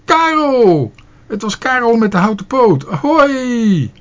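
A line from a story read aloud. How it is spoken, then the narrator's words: Called out. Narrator (Dutch): riep hij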